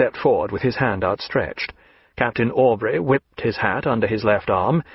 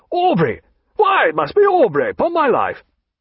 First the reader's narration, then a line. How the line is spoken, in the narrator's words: he cried